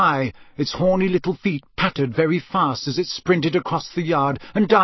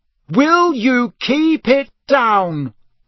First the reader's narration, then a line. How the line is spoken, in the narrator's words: he bellowed